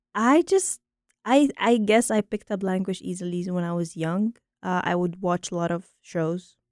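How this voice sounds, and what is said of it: American accent. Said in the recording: “That's how I picked up an American accent very earlier on.”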